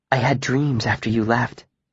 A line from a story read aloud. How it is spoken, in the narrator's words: she said, her voice low and confidential